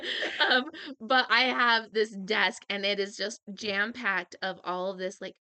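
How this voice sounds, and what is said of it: Usual voice. Nothing is said of it.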